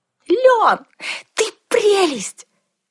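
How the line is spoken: Delighted squeal. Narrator (Russian): восхищенно завизжала я

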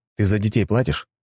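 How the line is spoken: Plain. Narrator (Russian): спросил я

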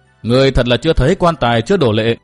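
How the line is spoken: Sneering. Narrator (Vietnamese): Cận Tố Tố cười khẩy nói

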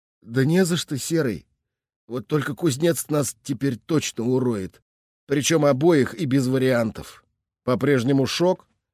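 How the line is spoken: Quiet, seemingly calm, unusual tone. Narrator (Russian): Говорит вроде спокойно, негромко, но как-то не похожа сейчас речь товарища на его повседневную болтовню

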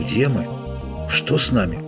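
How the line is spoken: Quiet moan. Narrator (Russian): Лютик тихо застонал

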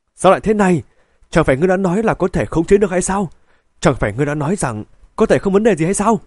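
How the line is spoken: Angry shout. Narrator (Vietnamese): quát lên

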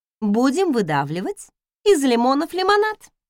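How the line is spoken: Cheerful. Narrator (Russian): бодро решила я

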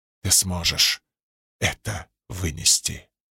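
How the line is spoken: Whisper. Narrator (Russian): прошептала сияющая

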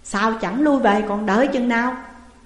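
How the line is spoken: Stern rebuke. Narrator (Vietnamese): Tôn Tẩn nạt rằng

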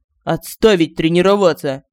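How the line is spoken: Barked command. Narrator (Russian): гаркнул Семён

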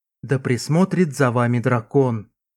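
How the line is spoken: Quiet mage. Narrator (Russian): тихо произнес маг

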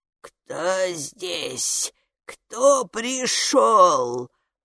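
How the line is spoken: Creaky ruler's voice. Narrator (Russian): проскрипела правительница

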